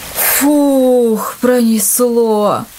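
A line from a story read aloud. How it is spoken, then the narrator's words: Relieved exhale. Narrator (Russian): выдохнул Илья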